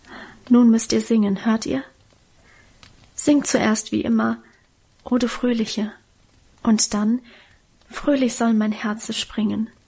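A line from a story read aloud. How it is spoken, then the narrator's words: Whisper. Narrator (German): flüsterte sie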